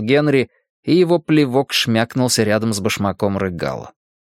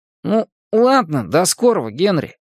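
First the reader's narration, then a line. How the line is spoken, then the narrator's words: Uncertain farewell. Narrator (Russian): неуверенно попрощался Рыгало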